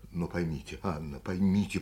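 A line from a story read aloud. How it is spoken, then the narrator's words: Hurried undertone. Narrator (Russian): проговорил он вполголоса, торопясь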